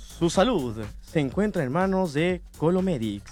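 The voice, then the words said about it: Radio announcer voice. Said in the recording (Spanish): “Lo puedes repetir porque tienes voz de locutor”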